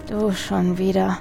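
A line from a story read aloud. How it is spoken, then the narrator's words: Tired muttering. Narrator (German): murmelte er müde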